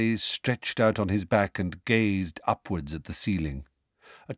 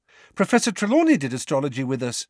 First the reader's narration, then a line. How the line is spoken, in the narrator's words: said Parvati excitedly